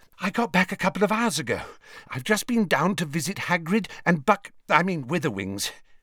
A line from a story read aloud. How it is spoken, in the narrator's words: said breathlessly